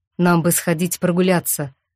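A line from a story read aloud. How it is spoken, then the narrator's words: Forced neutral, trembling voice. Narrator (Russian): предложила я нарочито нейтральным тоном, но голос вздрагивал на каждом слове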